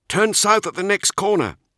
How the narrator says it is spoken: called out

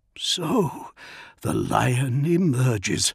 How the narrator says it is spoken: murmured Dantioch

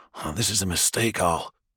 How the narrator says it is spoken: he says quietly

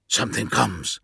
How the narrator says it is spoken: hissed Kigosi

